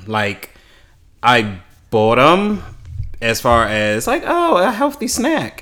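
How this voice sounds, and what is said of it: Voice shifts higher, put-on tone. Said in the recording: “Why did your voice do that? ... a little higher, too.”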